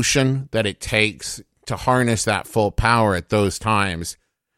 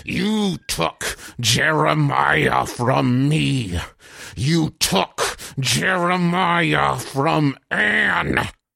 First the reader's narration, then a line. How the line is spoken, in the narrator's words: Connor's is gasping